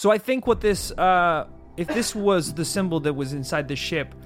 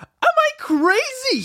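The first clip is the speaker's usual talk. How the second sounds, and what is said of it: Deliberately annoying put-on voice. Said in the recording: “let me say that in a less annoying voice ... So much more annoying.”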